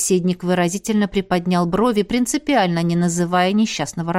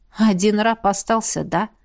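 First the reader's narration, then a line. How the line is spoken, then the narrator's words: Weary question. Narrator (Russian): устало переспросила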